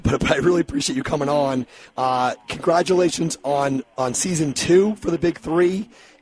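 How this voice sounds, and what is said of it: Hoarse, strained voice. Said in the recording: “apologize for my voice. It's completely trashed today”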